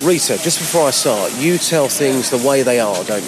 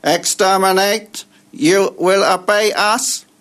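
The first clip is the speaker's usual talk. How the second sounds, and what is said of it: Dalek impression. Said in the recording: “your Dalek impression”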